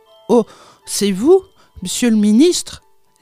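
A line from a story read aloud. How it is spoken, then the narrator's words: Exclaimed. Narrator (French): s'exclama-t-elle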